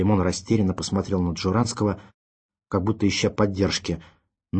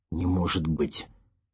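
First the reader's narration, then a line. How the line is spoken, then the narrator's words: Stunned, forced out. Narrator (Russian): только и смог выдавить ошарашенный Курочкин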